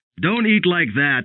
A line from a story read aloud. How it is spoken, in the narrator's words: Father snapped